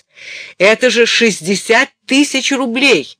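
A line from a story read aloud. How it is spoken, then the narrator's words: Shouting into phone. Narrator (Russian): закричала она в трубку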